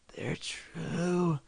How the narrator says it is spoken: she moaned

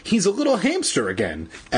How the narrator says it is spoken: Evan exclaimed happily

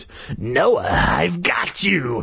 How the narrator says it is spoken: Carly Beth shrieked, her voice deep, raspy, and evil

